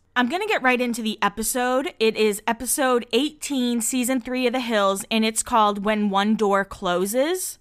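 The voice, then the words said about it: Slightly off, swollen-mouth sounding voice. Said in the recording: “if I sound a little different. My mouth is kind of swollen ... my mouth is like pretty swollen, so I'm sorry if there is a bit of, like, I don't know, weirdness with my voice”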